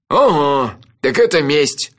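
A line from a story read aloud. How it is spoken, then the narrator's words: Wry snort. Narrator (Russian): хмыкнул Анчифа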